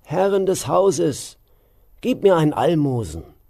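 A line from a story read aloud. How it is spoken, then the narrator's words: Calling out. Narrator (German): rief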